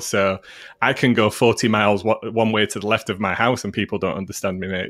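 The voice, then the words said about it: Broad Yorkshire accent with Mancunian. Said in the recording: “I'm what's called a northerner, and I have a very broad Yorkshire accent, and now kind of converged with a Mancunian accent as well”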